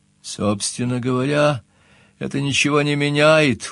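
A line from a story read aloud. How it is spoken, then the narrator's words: Glum. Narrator (Russian): уныло начал я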